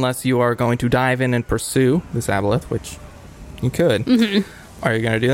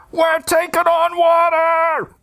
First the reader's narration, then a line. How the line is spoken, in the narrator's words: shouting over the wind and the torrent coming from below decks, the voice of one of the sailors shouting